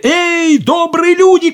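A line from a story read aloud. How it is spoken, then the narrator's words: Shouting. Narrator (Russian): крикнул он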